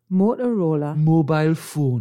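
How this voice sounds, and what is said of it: Attempted Geordie accent sounding Scottish. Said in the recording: “Say something in a Geordie accent... Oh, that's Scottish again.”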